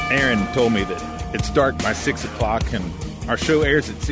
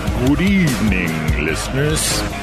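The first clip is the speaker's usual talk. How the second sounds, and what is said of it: Cartoon Count Chocula character voice. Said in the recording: “my best Count Chocula impersonation”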